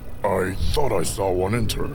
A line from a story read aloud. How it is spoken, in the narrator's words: Darf rumbled to himself